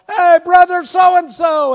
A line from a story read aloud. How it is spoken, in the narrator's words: somebody hollered